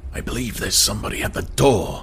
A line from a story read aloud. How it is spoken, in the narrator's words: he whispered